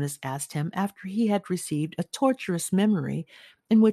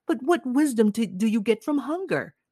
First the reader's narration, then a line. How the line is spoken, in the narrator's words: Jonas groaned